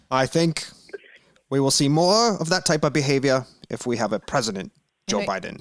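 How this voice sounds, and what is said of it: Politician impression with Canadian tinge. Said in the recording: “You have like a tinge of like Terrence and Phillip in there... Why does Bernie have a Long Island accent?”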